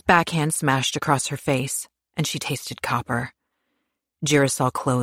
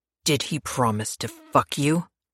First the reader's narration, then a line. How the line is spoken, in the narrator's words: Pierce snarled